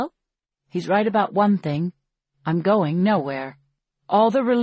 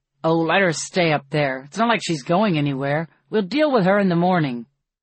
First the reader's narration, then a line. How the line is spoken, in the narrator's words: PETA say harshly